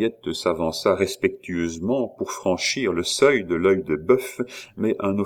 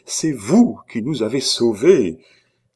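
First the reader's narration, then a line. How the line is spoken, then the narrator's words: Exclaiming. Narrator (French): s'écria-t-elle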